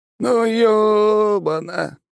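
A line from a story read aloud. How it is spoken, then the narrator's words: Drawn-out drawl. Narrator (Russian): протянул Гоша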